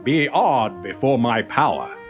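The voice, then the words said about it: Deep booming character voice. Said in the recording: “The toaster had its deep voice back.”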